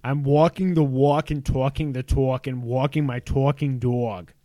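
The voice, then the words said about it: Exaggerated Long Island accent. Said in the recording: “you're supposed to say it in a Long Island accent... I'm gonna say it in my accent, which is exaggerated.”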